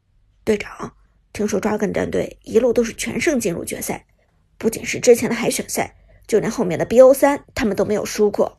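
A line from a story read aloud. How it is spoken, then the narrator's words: Low voice. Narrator (Chinese): 阿飞低声对苏哲道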